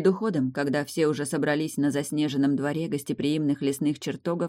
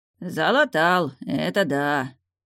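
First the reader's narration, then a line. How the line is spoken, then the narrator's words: Indistinct grumble. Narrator (Russian): проворчал невнятно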